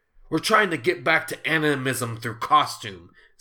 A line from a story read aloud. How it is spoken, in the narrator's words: Zenith said